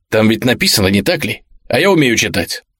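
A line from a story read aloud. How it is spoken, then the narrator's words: Angry question. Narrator (Russian): Мэринсон зло спросил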